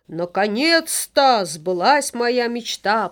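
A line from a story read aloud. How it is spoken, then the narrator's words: Father dragon's exclamation. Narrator (Russian): воскликнул папа-дракон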